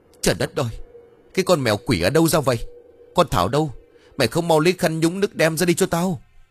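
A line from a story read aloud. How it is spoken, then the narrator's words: Shrill shouting. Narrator (Vietnamese): Cô ta vừa hét vừa chu chéo lên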